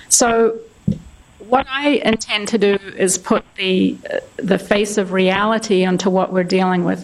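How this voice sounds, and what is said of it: Speaks with a noticeable accent. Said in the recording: “You can tell I have an accent.”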